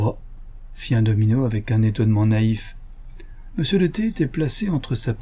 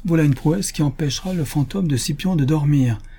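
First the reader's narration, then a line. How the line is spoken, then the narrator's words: Exclaiming. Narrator (French): s'écria M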